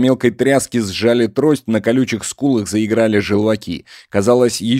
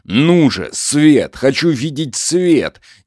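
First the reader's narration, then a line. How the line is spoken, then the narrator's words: Forceful growl. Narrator (Russian): Егор зарычал с силой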